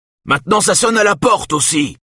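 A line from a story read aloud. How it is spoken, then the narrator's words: Shouting. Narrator (French): crie-t-il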